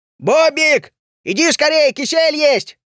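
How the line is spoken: Shout. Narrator (Russian): закричал Барбос

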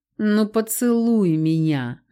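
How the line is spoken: Purring. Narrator (Russian): мурлыкнул болотник

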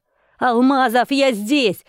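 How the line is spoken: Shouted again. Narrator (Russian): снова крикнул Сергей

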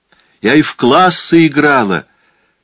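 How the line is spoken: Shouted after them. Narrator (Russian): крикнула им вдогонку миссис Бентли

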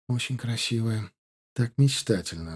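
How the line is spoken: Sighing. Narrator (Russian): вздохнула Диана

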